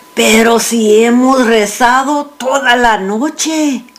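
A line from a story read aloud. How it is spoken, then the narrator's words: Father, complaining tone. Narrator (Spanish): dijo mi padre en tono quejumbroso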